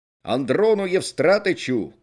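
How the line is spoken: Shouting from afar. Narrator (Russian): крикнул Мыльников еще издали

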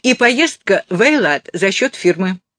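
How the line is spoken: Calling after someone. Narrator (Russian): крикнула Офра вдогонку

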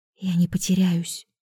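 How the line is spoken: Whisper. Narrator (Russian): шепнула

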